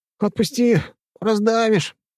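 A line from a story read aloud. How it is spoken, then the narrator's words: Strained squeak. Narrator (Russian): пискнул я, собравшись силами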